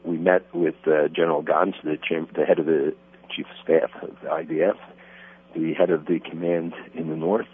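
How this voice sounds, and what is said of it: Congested voice with a cold. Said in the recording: “sorry, I have a cold ... it's becoming very obvious”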